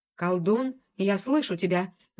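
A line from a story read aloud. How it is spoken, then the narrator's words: Roar from nearby. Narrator (Russian): взревел где-то неподалеку господин Заразиха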